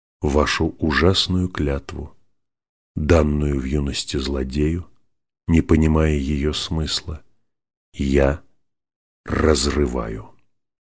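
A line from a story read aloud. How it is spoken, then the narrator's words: Quiet and clear. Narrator (Russian): Он тихо и внятно сказал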